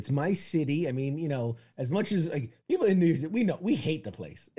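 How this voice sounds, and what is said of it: New York accent. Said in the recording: “You got to keep bringing the accent in the whole show”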